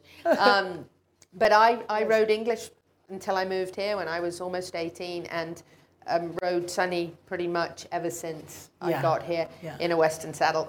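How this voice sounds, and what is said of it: British English accent. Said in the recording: “And I'm English. By the way, if you didn't know. ... A Brit. this is a real accent.”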